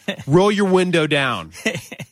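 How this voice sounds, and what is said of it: Stern dad voice. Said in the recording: “in what apparently has now become my dad voice”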